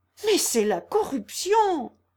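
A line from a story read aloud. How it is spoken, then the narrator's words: Exclaiming. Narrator (French): s'écria Émile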